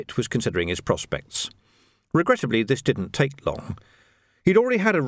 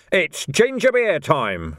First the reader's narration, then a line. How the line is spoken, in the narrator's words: roared someone